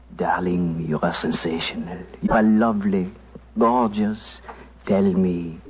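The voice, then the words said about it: Whispered put-on French accent. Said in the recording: “whispering in my fine French accent”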